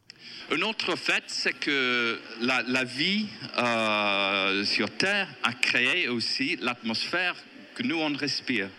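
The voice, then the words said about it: Strong English accent in French. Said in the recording (French): “un Anglais, écoutez bien, il a un accent certain, mais on le comprend”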